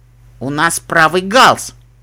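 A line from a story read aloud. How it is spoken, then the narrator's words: Snorting statement. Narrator (Russian): фыркнув, сообщил Нед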